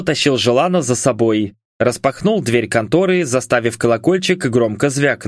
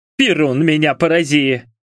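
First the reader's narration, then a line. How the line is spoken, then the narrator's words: Grumbling woman. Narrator (Russian): пробурчала толстая баба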